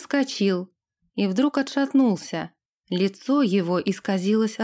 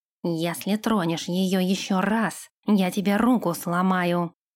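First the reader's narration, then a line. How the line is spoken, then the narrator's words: Growl. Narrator (Russian): рыкнул Нэш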